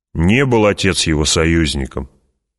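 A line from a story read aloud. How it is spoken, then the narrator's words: Angry girl. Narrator (Russian): сердито сказала девочка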